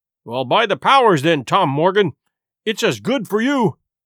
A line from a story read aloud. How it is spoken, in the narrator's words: exclaimed the landlord